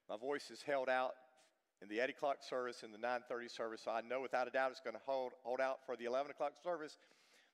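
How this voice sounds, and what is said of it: Weak, strained voice. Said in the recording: “my voice isn't very strong this morning”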